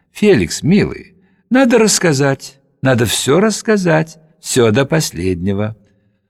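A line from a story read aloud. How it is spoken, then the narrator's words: Gentle, instructive. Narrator (Russian): Наташа ласково, наставительно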